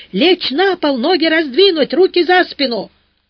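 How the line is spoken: Shouting in unison. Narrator (Russian): Они как-то разом заорали

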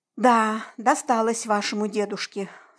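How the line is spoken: Sigh. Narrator (Russian): вздохнула

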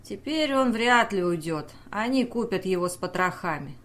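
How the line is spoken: Sighing. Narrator (Russian): он вздохнул

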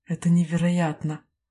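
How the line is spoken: Breathless admiring exclamation. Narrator (Russian): восхищенно выдохнул Теон

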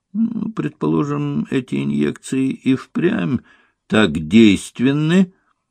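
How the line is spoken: Drawled. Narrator (Russian): протянул, узнав об успехах Ольги Самуил

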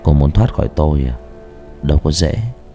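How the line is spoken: Soft smiling voice. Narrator (Vietnamese): tên thầy cũng mỉm cười khẽ nói

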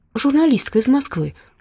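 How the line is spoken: Flustered babble. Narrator (Russian): растерянно пролепетала та

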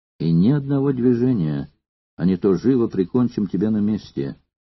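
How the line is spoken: Quiet but forceful. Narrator (Russian): Тихо, но внушительно сказал ему Крикс

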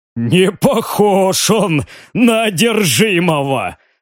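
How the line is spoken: After laughing. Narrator (Russian): сообщил Риган, отсмеявшись

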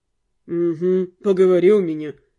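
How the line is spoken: Snort. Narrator (Russian): хмыкнул Руперт

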